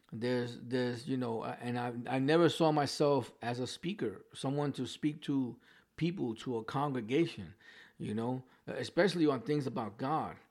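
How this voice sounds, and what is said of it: New York accent. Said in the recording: “I still have my New York accent. There's words that I can't pronounce properly.”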